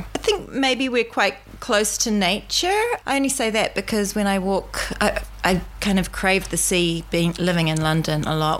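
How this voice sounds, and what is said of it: New Zealand accent. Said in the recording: “if people couldn't tell by your accent ... I still harbour my New Zealand accent ... when I go back home, they think that I sound very posh”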